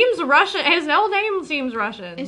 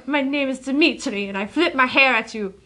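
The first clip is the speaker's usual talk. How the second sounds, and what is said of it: Bad put-on Russian accent. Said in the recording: “my Russian accent is bad”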